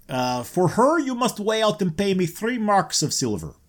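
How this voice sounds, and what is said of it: Put-on character accent. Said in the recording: “lost the accent.”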